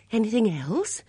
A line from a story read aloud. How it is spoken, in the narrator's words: demanded anxiously